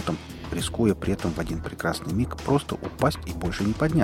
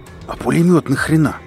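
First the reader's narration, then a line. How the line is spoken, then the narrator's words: Hoarse rasp, spitting. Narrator (Russian): прохрипел шрам, отплевываясь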